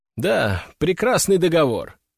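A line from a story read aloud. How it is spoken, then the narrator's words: Wry snort. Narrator (Russian): хмыкнул я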